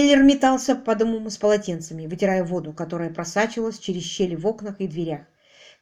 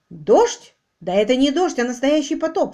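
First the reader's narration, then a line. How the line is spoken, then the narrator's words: Exclaiming. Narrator (Russian): воскликнул Квиллер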